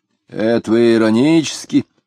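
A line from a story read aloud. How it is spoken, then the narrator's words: Angry lazy speaker. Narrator (Russian): ленивый начал говорить сердито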